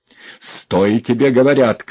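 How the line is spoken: Shouting. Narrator (Russian): крикнул Иван

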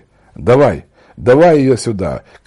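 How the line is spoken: Shouting. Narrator (Russian): кричал Василий

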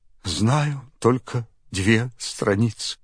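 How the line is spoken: Tearful answer. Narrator (Russian): бедный Алеша сквозь слезы отвечал

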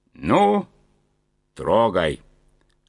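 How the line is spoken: Loud command. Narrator (Russian): Громко скомандовал главный вожак

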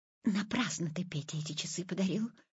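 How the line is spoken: Whisper. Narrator (Russian): шепотом сказала мама

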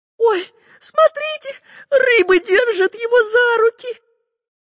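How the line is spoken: Squeaking girl. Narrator (Russian): пискнула Настенька

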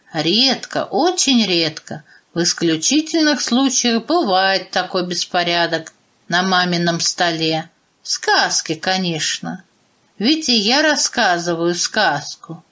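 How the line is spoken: Calm father explaining. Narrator (Russian): спокойно пояснил папа

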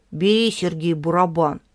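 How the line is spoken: Sighing, magnanimous. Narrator (Russian): вздохнул и великодушно сказал

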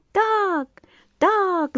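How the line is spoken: Many voices shouting. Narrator (Russian): закричали все и птицы, и рыбы

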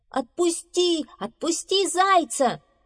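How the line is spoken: Shouting. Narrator (Russian): кричали они

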